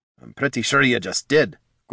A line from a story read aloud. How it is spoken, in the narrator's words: Gorm grumbled